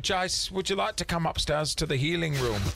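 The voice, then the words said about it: Put-on Kiwi accent, a bit off. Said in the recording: “Scottish. ... My Kiwi accent's a bit off. ... She's British.”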